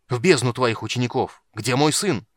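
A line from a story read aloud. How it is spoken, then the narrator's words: Shouted. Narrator (Russian): крикнул Танис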